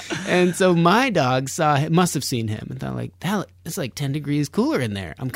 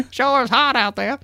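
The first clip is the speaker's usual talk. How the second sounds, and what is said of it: Dog character voice with accent. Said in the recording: “your dog has the best accent.”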